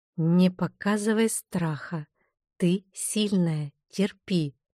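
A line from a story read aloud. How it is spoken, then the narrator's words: Stubborn inner whisper. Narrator (Russian): упертость зашептала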